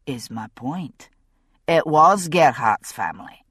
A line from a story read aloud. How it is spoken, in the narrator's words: said Jamie evenly